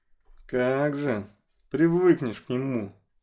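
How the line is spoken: Sullen grumbling. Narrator (Russian): Насупившись, проворчал Ворчун

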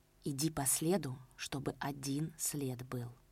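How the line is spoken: Whispered command. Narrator (Russian): шепотом приказал Половцев

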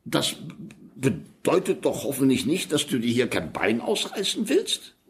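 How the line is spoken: Brief stutter. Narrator (German): Er stotterte kurz

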